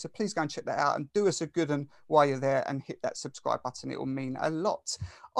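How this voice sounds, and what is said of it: British Essex accent. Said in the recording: “an admirer of this accent or the British accent ... I'm from Essex”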